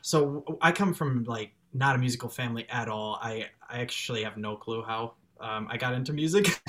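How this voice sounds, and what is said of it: Strong American Chicago accent. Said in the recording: “I have a pretty strong American. ... accent. ... you have a Chicago accent.”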